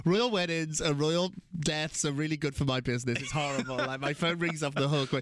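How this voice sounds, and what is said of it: British accent. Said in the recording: “I have a British accent ... We need a Brit.”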